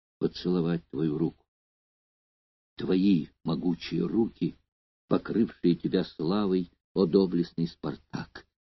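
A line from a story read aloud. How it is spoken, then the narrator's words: Whisper. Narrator (Russian): шептала она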